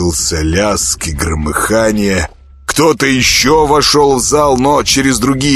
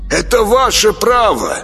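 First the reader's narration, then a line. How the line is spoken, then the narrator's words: Shout into darkness. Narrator (Russian): крикнул куда-то в темноту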